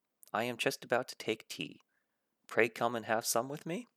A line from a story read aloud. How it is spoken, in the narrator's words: A little stiff, perhaps, but he meant it kindly